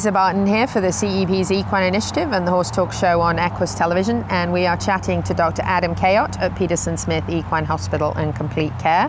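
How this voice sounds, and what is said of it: Speaks with a noticeable accent. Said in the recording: “Dr. Kayot thinks that sounds like foal because of my accent”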